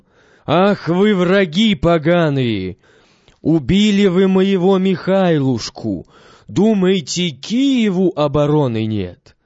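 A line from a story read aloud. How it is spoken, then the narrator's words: Loud booming shout. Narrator (Russian): закричал зычным голосом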